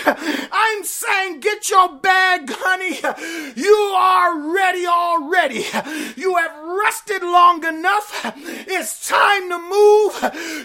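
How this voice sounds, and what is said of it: Yelling, shouted sermon delivery. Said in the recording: “I'm yelling as your pastor, charge! I'm yelling out to you over here”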